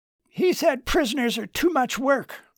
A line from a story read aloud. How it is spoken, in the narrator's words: Charles snapped